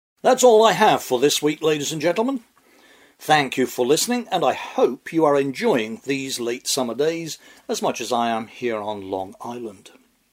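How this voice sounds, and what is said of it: English accent. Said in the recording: “you can tell by the accent, I'm an immigrant myself ... I come from England”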